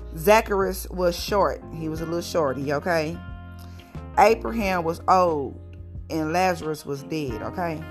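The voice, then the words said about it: Strong country accent. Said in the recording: “I talk so country”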